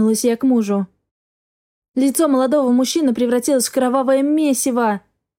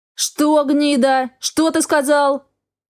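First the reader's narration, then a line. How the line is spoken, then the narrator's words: Roaring. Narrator (Russian): Взревел Рафаэль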